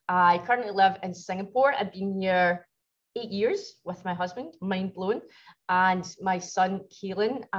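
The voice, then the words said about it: Glasgow Scottish accent. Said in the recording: “As you can probably tell from my accent, I am from Glasgow.”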